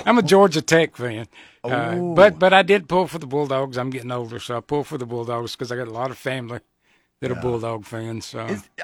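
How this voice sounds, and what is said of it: Slight Southern Georgia accent. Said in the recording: “I detect a slight accent ... I'm from Georgia. I was born in South Carolina, raised in Georgia. ... So you'd think I'd lose this accent”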